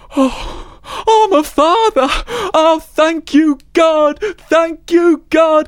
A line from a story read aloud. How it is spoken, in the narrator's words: he cried